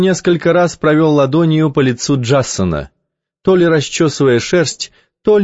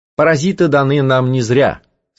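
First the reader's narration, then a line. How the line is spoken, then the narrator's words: Plain. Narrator (Russian): сказал мршанец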